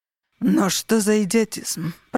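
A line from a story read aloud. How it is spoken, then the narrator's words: Growled. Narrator (Russian): прорычал Линус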